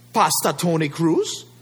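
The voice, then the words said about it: Imitated island accent. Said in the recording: “with her island accent”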